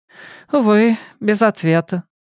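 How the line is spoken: Sighing. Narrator (Russian): вздохнул Чарли

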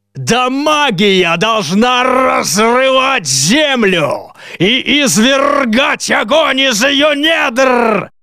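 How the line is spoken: Menacing man growling. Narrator (Russian): прорычал еще раз ужасный человек

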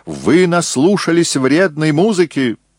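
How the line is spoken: Shouted in bad German. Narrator (Russian): он выкрикнул на плохом немецком языке

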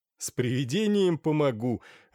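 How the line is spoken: Laughing. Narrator (Russian): рассмеялся Тоннер

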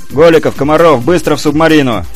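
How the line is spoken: Instructor's distant shout. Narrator (Russian): крикнул издалека инструктор

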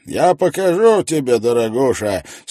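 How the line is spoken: Loud odd hard-of-hearing voice. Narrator (Russian): сказал Мейзи громким, странноватым голосом, характерным для тугих на ухо людей

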